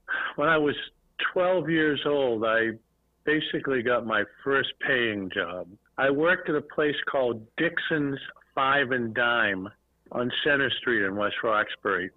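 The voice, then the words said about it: Northeastern US accent. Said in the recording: “From the Northeast ... I couldn't tell from your accent ... it gives it away sometimes”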